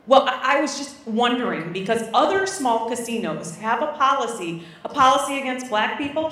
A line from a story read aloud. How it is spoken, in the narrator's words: Sheila barks